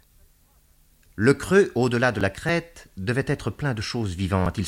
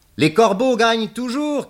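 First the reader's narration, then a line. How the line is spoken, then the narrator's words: Shouting. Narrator (French): cria Pierrette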